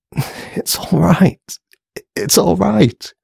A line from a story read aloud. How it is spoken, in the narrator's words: croaked, as the tears fell down her cheeks